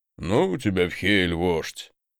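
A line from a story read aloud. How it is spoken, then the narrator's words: Big man's grumble. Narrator (Russian): буркнул здоровяк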